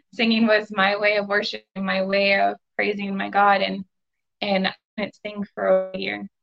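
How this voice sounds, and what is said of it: Emotional, choked-up voice. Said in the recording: “I'm getting emotional now”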